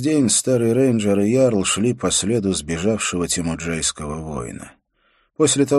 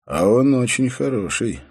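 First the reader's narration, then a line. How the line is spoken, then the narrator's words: Calm. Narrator (Russian): спокойно произнес Холт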